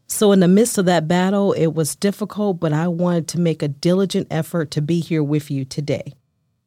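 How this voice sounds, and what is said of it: Odd-sounding voice, recovering from voice loss. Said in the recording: “my voice sounds a little odd today ... I lost my voice”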